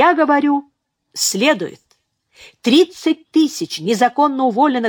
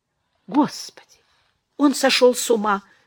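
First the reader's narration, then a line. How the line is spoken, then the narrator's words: Whispering. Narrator (Russian): шепнула Беатрис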